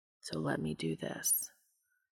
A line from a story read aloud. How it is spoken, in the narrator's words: the angel whispered quietly